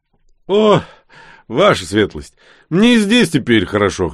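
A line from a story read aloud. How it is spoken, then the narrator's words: Wry snort. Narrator (Russian): хмыкнул я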